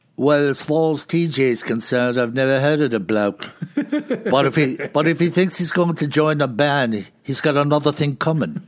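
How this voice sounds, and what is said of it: Put-on Liverpool accent. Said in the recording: “your Paul and John Liverpoolian accent”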